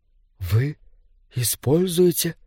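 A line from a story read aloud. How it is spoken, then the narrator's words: Whisper. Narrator (Russian): прошептала Рейвен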